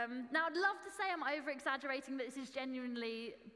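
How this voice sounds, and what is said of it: Usual voice. Nothing is said of it.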